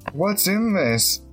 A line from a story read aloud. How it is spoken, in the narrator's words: asked indignantly